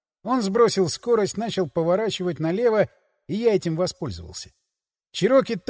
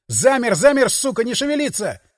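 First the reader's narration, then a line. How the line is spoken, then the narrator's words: Yelling. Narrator (Russian): заорал я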